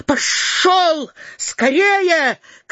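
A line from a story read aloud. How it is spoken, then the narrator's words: Shouting, trembling voice. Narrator (Russian): крикнул дрожащим голосом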